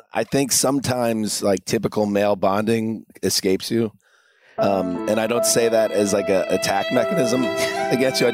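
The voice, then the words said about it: Temporarily impaired, off-sounding voice. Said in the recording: “my stupid voice today. Hopefully that will be better on Tuesday.”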